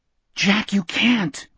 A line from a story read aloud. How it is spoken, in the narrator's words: Richard whispered